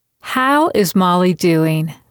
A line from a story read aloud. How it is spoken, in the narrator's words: Bess asked